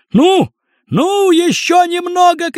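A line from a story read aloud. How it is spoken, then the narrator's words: Shouting. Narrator (Russian): кричал Крендель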